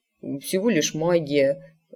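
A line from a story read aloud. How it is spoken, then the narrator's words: Mutter. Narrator (Russian): пробормотал он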